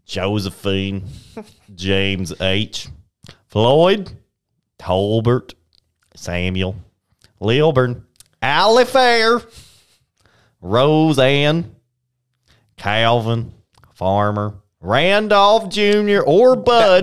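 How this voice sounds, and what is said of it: Put-on country accent. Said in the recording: “you have to say all these names with a country accent.”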